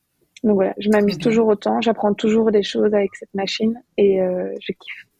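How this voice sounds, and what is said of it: Belgian French accent. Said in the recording (French): “ce délicieux petit accent nous vient de Belgique”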